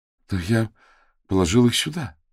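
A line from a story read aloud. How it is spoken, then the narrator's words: Young man mumbling. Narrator (Russian): промямлил парень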